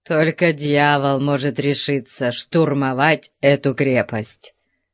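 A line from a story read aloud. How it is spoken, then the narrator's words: Grumbling. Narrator (Russian): проворчал Конан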